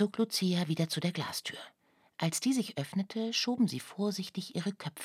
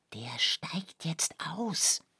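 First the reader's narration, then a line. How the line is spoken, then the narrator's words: Whispered. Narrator (German): flüsterte Oskar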